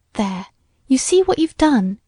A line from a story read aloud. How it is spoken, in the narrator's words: exclaimed Ruth